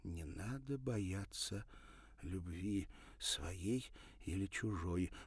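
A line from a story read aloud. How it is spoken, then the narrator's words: Whispering. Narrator (Russian): прошептала Ирина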